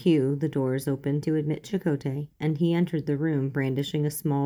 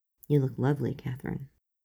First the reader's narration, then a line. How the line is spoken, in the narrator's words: said softly